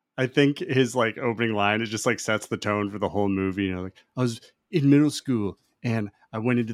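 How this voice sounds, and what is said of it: Usual voice. Nothing is said of it.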